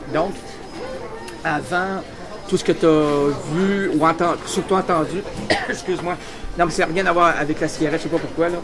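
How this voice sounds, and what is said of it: Québécois French accent. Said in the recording (French): “l'accent, moi j'adore cet accent. ... c'est très agréable”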